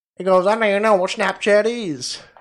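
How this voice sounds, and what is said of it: Bad put-on southern accent. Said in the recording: “That was a terrible impression of someone down south.”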